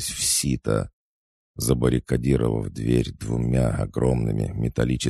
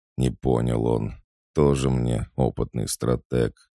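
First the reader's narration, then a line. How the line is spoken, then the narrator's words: Sighing. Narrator (Russian): вздохнув, ответил я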